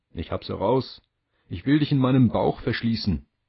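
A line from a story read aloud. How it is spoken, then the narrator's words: Called out. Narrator (German): Endlich rief er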